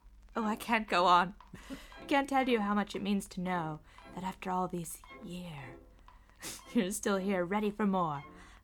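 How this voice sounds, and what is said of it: Norma Desmond character impression. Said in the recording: “that was a good imitation ... my uncanny Norma Desmond impression”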